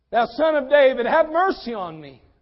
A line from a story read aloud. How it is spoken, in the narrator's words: He cried the more a great deal